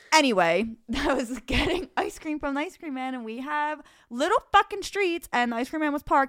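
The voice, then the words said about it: Distinctive Delaware County Philadelphia accent. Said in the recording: “my voice and accent are doing a really bad job ... Delco has a very distinctive accent.”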